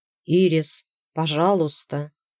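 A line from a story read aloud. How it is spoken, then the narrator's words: Moaning plea. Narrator (Russian): простонал Дакфин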